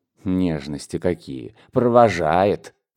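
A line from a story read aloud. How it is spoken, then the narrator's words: Muttering through teeth. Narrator (Russian): пробормотал он сквозь зубы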